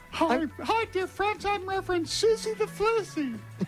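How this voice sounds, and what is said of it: Little girl voice. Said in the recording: “Oh, you're going to be doing that little girl voice”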